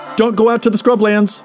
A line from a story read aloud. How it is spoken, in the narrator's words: added with a shout